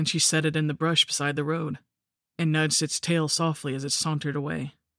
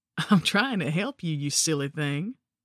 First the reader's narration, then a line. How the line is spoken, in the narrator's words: laughed her beautiful horsey laugh and said